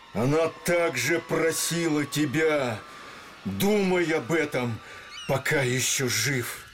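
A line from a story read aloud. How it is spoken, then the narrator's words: Loud shout against wind. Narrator (Russian): Лангрен, глубоко вздохнув, чтоб в ветре не потерялось ни одного слова, крикнул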